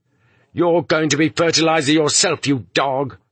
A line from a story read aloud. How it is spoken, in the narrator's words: they shouted back